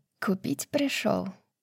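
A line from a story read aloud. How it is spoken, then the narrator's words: Quiet question. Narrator (Russian): тихо спросила русала королева змей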